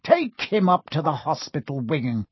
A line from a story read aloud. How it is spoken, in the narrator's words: Spate spat at Seamus